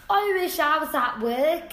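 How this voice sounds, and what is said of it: Bad imitation Scottish accent. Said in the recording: “that's such a bad Scottish accent ... That's an English accent.”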